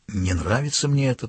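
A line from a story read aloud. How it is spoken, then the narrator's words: Whisper. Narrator (Russian): прошептал Мартинсон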